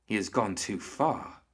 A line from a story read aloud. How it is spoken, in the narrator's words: Hoffman whispered